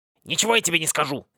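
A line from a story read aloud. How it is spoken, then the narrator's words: Rude, cracked voice. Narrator (Russian): Грубо прервало его зеркальце надтреснутым голосом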